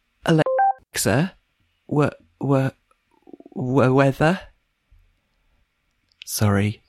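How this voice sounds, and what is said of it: Halting, stammering speech. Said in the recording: “do an impression of someone with a stammer”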